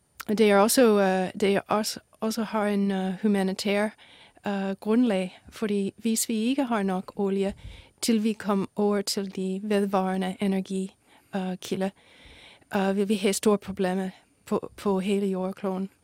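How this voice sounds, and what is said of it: American accent speaking Danish. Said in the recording (Danish): “Man kan høre, at du har et amerikansk accent.”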